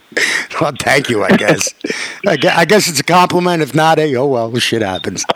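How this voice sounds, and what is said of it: New York accent. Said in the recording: “You're fucking full New York, man. ... I am from New York ... you could tell by my accent”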